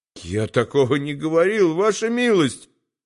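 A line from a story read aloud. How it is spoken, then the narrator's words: Stammered timidly. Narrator (Russian): пролепетал Келлерь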